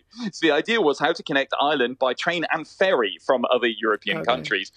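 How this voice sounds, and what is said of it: British accent. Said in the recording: “as you can probably tell from my accent, I'm actually British originally”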